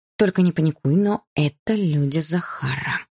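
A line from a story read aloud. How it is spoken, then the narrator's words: Whispered from hiding. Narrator (Russian): прошептала я из-за кустов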